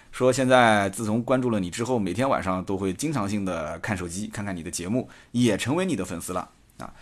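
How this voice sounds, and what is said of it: Nanjing accent. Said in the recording (Chinese): “带着南京口音的人在巴拉巴拉巴拉巴拉这边说”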